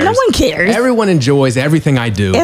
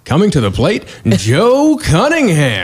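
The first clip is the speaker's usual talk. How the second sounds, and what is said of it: Baseball announcer voice. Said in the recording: “my baseball announcer voice”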